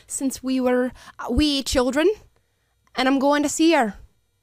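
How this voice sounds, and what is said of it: Put-on Irish accent. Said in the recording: “It's Irish.”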